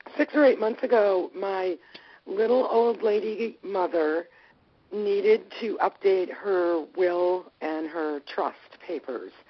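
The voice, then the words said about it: Hoarse, froggy voice. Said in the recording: “apologize for my voice. I'm really froggy today.”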